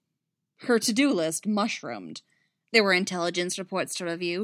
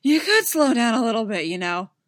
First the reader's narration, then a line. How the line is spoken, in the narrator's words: Poe said, panting